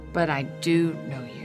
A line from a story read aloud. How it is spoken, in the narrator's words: Jesus said softly